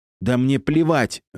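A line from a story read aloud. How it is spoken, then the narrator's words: Shriek. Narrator (Russian): завизжала Динара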